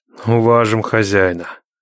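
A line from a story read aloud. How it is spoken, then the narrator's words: Grim, threatening. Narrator (Russian): мрачно молвил Никита, будто пригрозил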